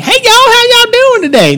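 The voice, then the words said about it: Imitated Georgia Southern accent. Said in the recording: “he was from Georgia ... based solely on his accent”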